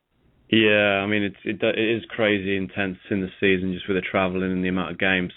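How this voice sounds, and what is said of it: British English accent. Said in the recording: “you have an accent ... you actually are UK”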